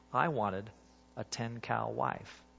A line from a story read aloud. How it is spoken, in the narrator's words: he finished softly